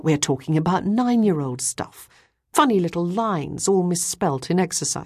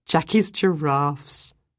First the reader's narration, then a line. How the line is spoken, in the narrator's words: Ruth said with a laugh